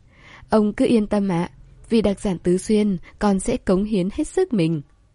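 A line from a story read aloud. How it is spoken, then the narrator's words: Smiling. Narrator (Vietnamese): Trương Tư Ninh ... mỉm cười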